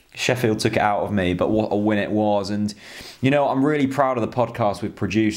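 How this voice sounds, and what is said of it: Sore-throated, slightly hoarse voice. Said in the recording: “as you can hear this week, I've got a bit of a sore throat.”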